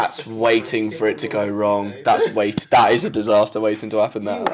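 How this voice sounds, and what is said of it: Usual voice. Nothing is said of it.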